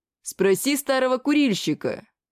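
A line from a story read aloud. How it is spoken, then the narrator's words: Chuckling orc. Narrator (Russian): хохотнул в ответ орк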